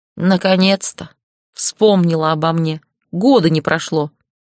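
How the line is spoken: Grumbling. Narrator (Russian): проворчал Аркус

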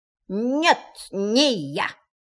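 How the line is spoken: Strange, altered voice. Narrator (Russian): сказал кролик совершенно не своим голосом

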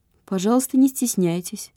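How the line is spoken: Calm. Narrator (Russian): спокойно сказал Ермилов

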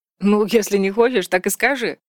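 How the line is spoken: Laughing. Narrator (Russian): засмеялся Вальдекрис

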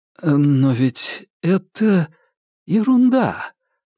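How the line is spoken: Uncertain, smiling. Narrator (Russian): неуверенно улыбаясь, сказал Аркадий

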